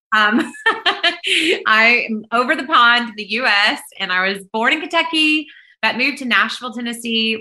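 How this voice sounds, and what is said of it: American accent. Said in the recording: “I'm not Australian, if you can't tell by my accent”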